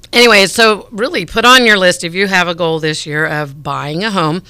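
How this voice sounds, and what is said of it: Hoarse, strained voice. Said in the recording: “I seem to be losing my voice.”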